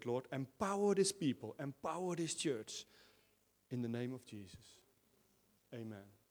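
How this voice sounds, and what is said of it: Foreign-accented English. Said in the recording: “he said it in a foreign accent, but he said it so well”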